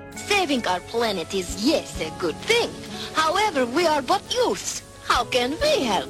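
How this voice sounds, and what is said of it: Russian accent character voice. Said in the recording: “love your accent, babe. You Russian?”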